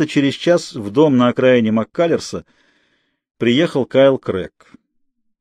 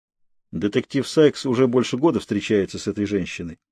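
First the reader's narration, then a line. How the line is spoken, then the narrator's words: Quiet. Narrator (Russian): тихо сообщил он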